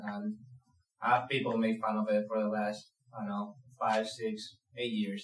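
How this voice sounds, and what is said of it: Spanish accent in English. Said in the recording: “I'm from Spain, so obviously I have an accent.”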